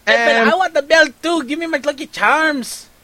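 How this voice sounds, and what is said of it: Bad Irish accent, Mexican-tinged. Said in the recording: “You sound like a Mexican guy trying to be Irish. ... That's my impression of, like, every Irishman. Mexican guy trying to do an Irish guy ... like Cheech Marin trying to be Irish”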